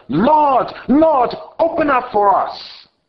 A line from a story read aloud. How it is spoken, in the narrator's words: They earnestly shouted